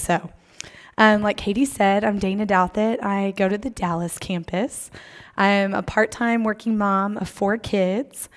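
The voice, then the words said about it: Partly lost, strained voice. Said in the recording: “I have somewhat lost my voice, but it's almost back.”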